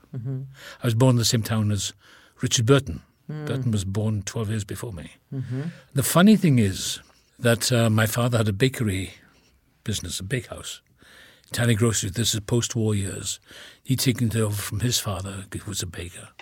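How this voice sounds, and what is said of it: Welsh accent. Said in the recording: “my accent, even talking about it, become more Welsh”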